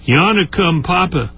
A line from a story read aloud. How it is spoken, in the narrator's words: Ernie, my little brother, called out and says